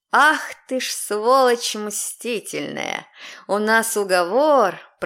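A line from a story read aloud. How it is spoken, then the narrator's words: Hissing under breath. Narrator (Russian): прошипела про себя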